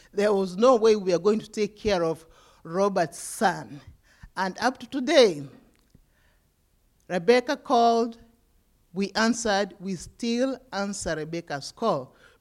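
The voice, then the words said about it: Speaks with a noticeable accent. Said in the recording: “you hear me from with my accent”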